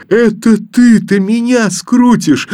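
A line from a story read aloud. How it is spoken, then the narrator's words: Boy answering with loud laughter. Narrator (Russian): с громким хохотом ответил мальчик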